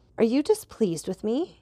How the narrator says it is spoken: cried Valentine in such astonishment

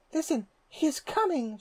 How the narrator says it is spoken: exclaimed

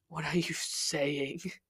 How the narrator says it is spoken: My voice was ragged

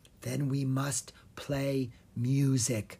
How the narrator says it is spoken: Will whispered

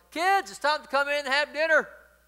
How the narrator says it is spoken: his grandmother called out from the window

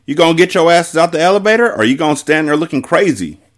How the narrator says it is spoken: Ari said urgently

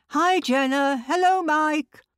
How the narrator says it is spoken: yell

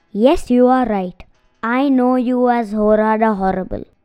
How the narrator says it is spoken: said Abhi quietly

